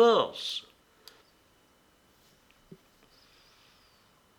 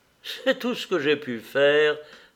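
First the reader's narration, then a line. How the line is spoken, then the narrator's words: Laughing. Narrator (French): dit-elle en riant à Anna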